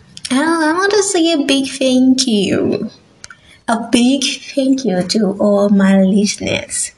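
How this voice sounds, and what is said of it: Non-native English accent. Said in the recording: “As a non-native English speaker, you know you have an accent. Yes, I have an accent. ... You know, I sound different.”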